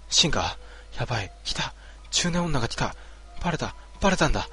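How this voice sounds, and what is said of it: Hurried, panicked whisper. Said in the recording (Japanese): “小声で焦りながら”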